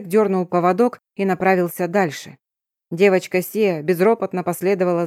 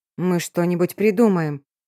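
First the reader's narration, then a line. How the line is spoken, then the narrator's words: Helpless, forced out. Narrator (Russian): беспомощно выдавила я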